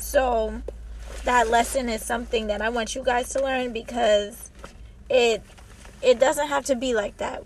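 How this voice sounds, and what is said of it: Strained, worn-out voice. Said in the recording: “as you guys can tell, I lost my voice. I used all of my vocal cords for this episode, and my voice is done ... when I'm not sick”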